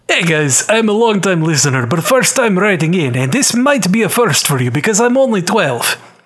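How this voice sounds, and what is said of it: Put-on Russian accent. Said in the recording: “do this in a Russian accent to tribute Black Widow.”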